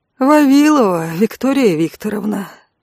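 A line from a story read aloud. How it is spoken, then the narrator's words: Bored voice. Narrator (Russian): скучающим голосом произнес ангел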